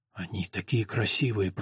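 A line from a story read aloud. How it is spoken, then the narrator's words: Whisper. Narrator (Russian): прошептал он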